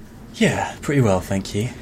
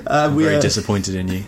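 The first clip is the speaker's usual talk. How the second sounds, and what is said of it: Stern disappointed dad voice. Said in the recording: “the best dad raid leading voice ... the dad voice”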